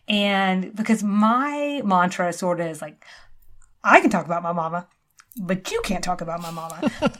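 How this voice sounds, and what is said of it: Mild Southern US accent, lilting. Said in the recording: “I slightly have an accent ... A little bit. It's a little bit of an accent. It's mild. ... A lilt. ... It's mild plus.”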